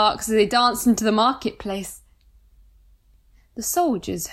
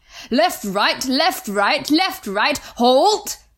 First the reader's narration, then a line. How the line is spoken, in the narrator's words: barked the sergeant